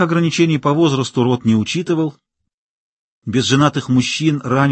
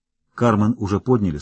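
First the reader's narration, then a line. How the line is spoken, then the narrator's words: Plain. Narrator (Russian): сказал тот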